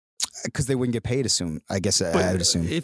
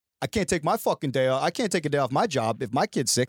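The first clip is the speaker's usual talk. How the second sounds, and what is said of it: Put-on Boston accent. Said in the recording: “Is that your Boston accent?”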